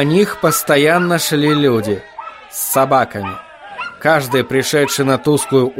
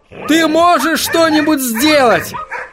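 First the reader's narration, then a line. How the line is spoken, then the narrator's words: Yelled right into ear. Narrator (Russian): заорал он Отто прямо в ухо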